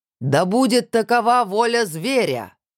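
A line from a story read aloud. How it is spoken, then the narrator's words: Shout. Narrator (Russian): крикнул Руслан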